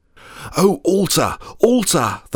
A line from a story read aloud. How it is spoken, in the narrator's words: the man of God cried out